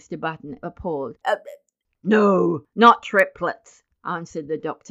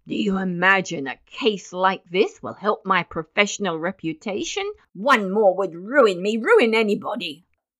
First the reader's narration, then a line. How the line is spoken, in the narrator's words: He snapped the last word out in almost one syllable